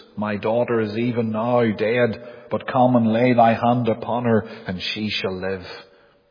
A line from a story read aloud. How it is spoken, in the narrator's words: he cried